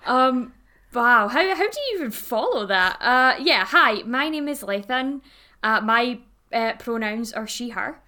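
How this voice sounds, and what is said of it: Scottish accent. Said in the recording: “in case you couldn't tell for the accent, is Scotland. Bonnie Scotland.”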